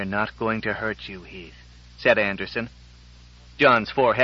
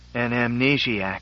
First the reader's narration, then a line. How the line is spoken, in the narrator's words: he said huskily, and with a terror that only someone could feel at the possibility who himself had perfect recall